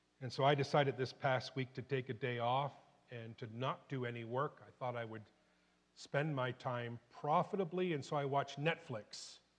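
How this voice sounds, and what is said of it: Voice sounds sick with a cold. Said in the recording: “you may hear it in my voice, but I've got a man cold”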